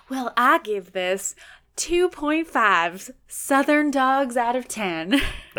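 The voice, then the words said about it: Weak put-on Southern accent. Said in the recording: “You liked my Southern accent? ... I am bad at accents.”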